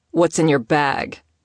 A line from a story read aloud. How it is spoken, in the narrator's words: He asked, his tone combative